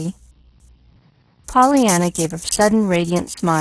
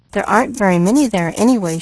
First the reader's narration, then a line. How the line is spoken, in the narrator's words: she faltered